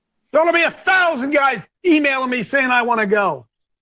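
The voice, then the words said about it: Yelling, loud passionate speech. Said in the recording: “because I'm yelling this morning ... why ... was yelling”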